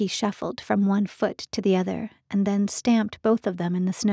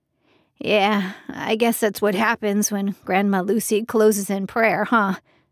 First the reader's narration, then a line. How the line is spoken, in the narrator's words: He let out a nervous chuckle